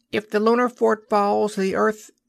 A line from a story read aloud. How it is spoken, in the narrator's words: an electroscope beside Douglas took up the thread in a high, shrill voice, rather slurred